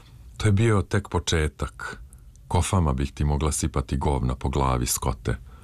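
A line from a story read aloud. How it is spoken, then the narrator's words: Breathless, crumbling voice. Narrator (Serbian): upitala je, i odjednom ostala bez daha, a onda izmrvljenim glasom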